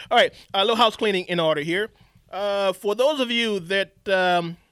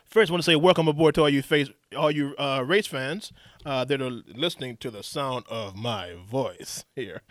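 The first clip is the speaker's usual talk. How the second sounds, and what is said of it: Announcer-style radio voice. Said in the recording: “that's my radio voice”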